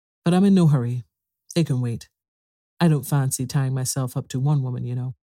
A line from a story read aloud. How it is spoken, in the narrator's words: said in a calmer tone